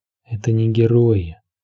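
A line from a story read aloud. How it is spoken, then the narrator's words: Inner whisper. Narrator (Russian): голос в душе ее шептал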